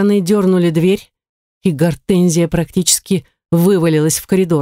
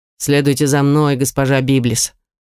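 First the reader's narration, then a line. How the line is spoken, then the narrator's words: Stern command. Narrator (Russian): строго приказал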